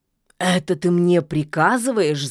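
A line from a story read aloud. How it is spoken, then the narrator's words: Growled. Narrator (Russian): зарычал Кощей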